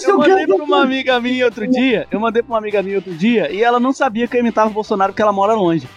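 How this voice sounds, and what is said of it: Usual voice. Nothing is said of it.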